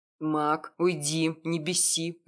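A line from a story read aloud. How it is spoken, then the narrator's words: Growling. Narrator (Russian): рыкнул на него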